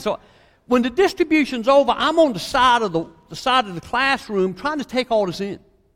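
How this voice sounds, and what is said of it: Southeast Virginia accent. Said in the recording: “I'm from Southeast Virginia, if you're trying to figure out what his accent is”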